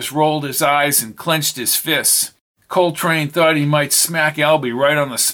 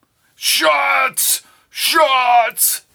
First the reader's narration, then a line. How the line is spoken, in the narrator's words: shouted Albie